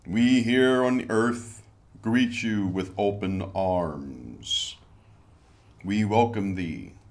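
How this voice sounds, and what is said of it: Announcer-style radio voice. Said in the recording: “I got my radio voice on today”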